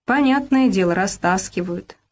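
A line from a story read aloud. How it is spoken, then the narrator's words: Plain. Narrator (Russian): сказала Люба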